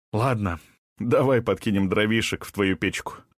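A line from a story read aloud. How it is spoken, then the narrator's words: Laughing. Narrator (Russian): засмеялся Расмус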